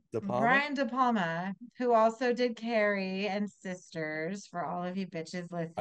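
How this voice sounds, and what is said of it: New York accent. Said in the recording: “I love your Jersey accent kicking in today ... It's New York. She's not from Jersey.”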